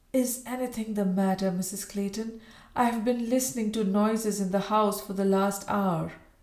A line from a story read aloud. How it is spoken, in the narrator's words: a voice asked huskily